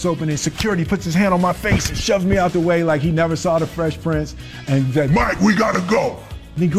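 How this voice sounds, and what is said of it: Usual voice. Nothing is said of it.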